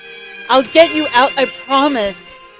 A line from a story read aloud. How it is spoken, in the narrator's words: she yelled through the glass